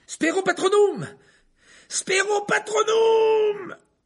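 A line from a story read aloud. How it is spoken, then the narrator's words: Screaming. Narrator (French): hurla Harry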